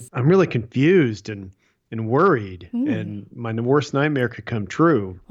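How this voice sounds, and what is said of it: Impression of Colton. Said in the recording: “do a Colton impression”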